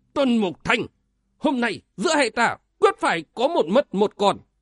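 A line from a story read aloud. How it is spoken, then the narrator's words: Angry, through gritted teeth. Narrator (Vietnamese): Quân trung thánh tức giận nghiến rằng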